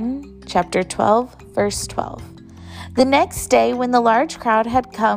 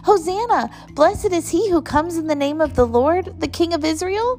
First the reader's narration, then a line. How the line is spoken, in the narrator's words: They kept shouting